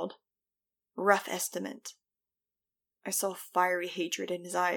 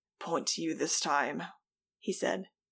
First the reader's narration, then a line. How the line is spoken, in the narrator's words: his voice raspy